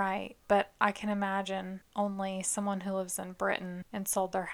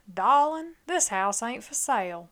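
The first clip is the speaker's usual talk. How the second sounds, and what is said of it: Put-on Charleston Southern accent. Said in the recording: “Is he Foghorn Leghorn? ... that was my Charleston accent”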